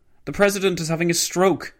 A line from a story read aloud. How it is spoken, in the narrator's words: shouted